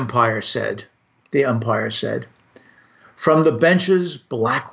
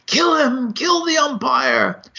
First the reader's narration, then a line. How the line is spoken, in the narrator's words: shouted someone on the stand